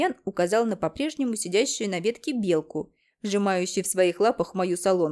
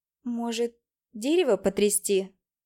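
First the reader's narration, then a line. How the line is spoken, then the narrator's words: Uncertain, doubtful. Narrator (Russian): неуверенно проговорила я, сомневаясь, что даже у Ромашки хватит сил на это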